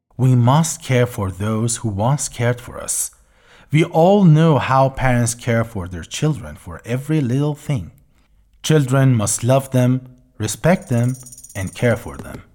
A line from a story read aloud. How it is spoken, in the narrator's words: old woman said calmly